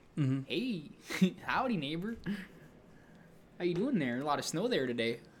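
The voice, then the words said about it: Put-on Upper Midwest accent. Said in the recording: “the Michigan people can't talk, though, because their accent is like ... people from like Minnesota and Michigan are just like”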